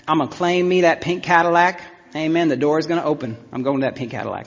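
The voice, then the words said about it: Put-on southern accent. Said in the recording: “in a southern accent.”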